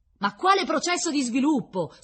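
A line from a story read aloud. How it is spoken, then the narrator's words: Embarrassed outburst. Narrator (Italian): sbottò Krylkov arrossendo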